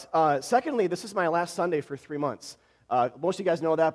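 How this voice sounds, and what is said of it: Voice strained from a cold. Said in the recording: “I have a cold. I'm just getting over one, so my voice, hopefully it makes it ... if I have to hack a bit”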